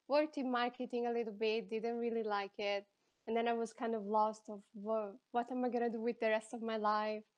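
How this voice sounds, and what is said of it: Mixed Italian-accented English. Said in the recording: “I'm from Italy, as you can probably hear from my accent. I have a very weird accent because I learned English in the States and I lived in Spain for 5 years.”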